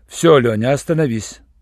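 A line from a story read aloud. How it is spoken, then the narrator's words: Dry, curt. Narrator (Russian): сухо сказал Руальд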